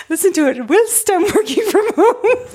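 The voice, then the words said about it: Put-on British accent, Mrs. Doubtfire-like. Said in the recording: “You sound like Mrs. Doubtfire when you try to do a British accent.”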